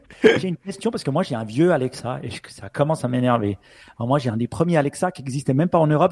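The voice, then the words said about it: Swiss French accent. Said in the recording (French): “mon accent suisse”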